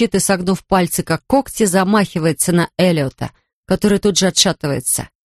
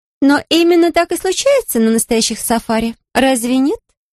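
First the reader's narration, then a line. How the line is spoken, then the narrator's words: Cheerful. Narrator (Russian): весело говорит Сильвия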